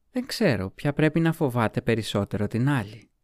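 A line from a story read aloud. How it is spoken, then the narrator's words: Smiling. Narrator (Greek): είπε χαμογελώντας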